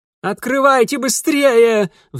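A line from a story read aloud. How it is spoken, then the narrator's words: Piercing shriek. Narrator (Russian): взвизгнули пронзительно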